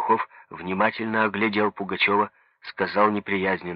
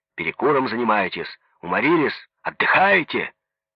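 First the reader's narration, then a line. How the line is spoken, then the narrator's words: Angry question. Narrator (Russian): Спросил зло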